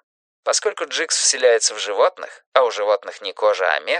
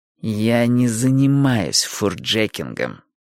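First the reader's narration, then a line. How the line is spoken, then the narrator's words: Through gritted teeth. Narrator (Russian): процедила Джилл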